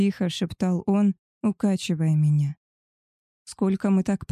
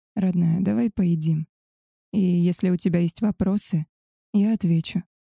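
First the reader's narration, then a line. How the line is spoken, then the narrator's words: Soft, into the ear. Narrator (Russian): мягко сказал Габриэль на ушко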